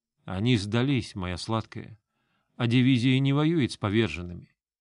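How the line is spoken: Restrained calm. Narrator (Russian): справился с собой и спокойно ответил

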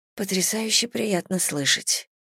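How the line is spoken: Mumbling. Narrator (Russian): пробормотала я

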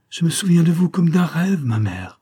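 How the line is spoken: Exclamation. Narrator (French): s'écria-t-il

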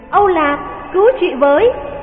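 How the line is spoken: Crying out. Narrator (Vietnamese): Thánh Thiên kêu lên

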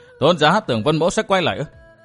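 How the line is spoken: Dry laugh while speaking. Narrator (Vietnamese): Vân Thiên Nhạc bật cười khô khốc nói

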